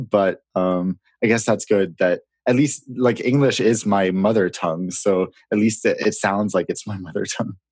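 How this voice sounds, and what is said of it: Authentic American accent. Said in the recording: “Your accent is so authentic that if I didn't read your bio, you could be a kid from California or from New York.”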